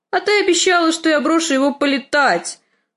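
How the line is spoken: Shaking wail. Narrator (Russian): завопил лорд Орлиного гнезда, начиная трястись

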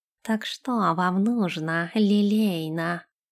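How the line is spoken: Purring, intimate. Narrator (Russian): промурлыкал он ей на ухо, склонившись ближе

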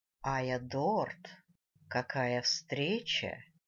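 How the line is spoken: Drawling familiar voice. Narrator (Russian): Протянул уже явно когда-то слышанный мной голос

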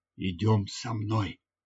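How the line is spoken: Whispered. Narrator (Russian): я прошептал

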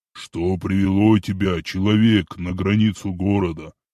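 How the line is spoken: Deep rumbling bass. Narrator (Russian): пророкотал своим фирменным басом

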